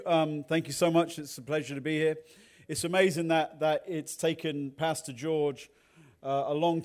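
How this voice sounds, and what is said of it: Regional English accent. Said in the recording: “you can probably tell by my accent, I don't speak the Queen's or the King's English. I speak English English. ... I will tone down my regional accent”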